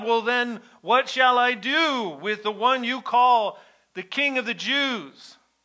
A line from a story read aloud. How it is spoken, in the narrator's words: they shout again